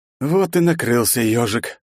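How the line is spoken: Tired. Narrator (Russian): устало произнес

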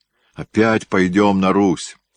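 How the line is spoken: Moan. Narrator (Russian): простонал Курбский

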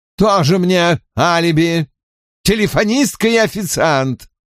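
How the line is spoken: Contemptuous snort. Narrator (Russian): презрительно фыркнул Поль

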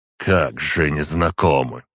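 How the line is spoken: Dismissive snort. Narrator (Russian): с пренебрежением хмыкнул Зорянич

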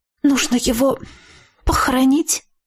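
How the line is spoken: Forced out reluctantly. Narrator (Russian): наконец выдавила Виола

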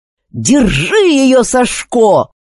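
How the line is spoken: Yelling mid-fight. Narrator (Russian): заорал Богдан, отбиваясь от разъяренной ведьмы

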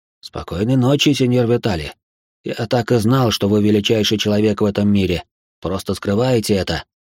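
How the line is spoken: Whispered. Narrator (Russian): прошептал он

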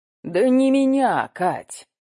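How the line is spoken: Sighing. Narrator (Russian): Сергеев вздохнул

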